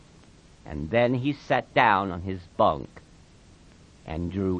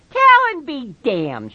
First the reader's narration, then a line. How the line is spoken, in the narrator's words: she cried